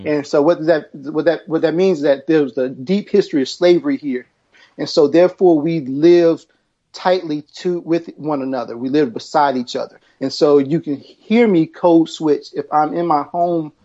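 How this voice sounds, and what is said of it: Southern American accent. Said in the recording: “If you hear my accent, I'm actually from the South.”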